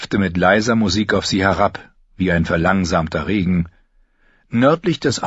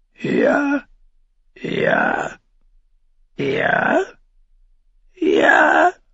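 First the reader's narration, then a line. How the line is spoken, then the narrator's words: Murmuring. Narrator (German): der Rabe murmelte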